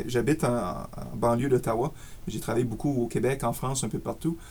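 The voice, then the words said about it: Slight Acadian French accent. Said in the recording (French): “un petit peu mon accent acadien”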